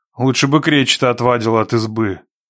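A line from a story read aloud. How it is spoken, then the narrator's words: Gloomy remark. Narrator (Russian): мрачно заметил Никита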